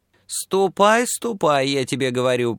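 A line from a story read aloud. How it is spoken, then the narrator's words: High creaky voice. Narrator (Russian): проскрипела она своим высоким голосом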